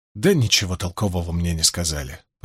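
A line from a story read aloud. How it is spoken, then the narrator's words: Mumbled. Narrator (Russian): пробормотал Мэтт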